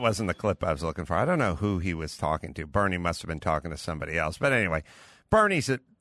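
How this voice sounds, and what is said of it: Usual voice. Nothing is said of it.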